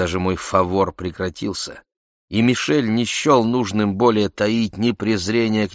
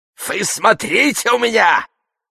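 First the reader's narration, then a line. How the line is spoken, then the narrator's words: Shouting. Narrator (Russian): кричал он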